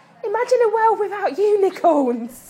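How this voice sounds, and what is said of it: Imitates another person's voice, Essex accent. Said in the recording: “I have to do the Stacey... Essex... great impression”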